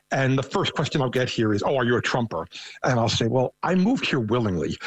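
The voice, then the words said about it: Thick New York accent. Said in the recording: “I have a very thick New York accent.”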